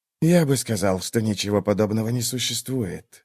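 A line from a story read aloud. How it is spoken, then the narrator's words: Mutter. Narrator (Russian): пробормотал он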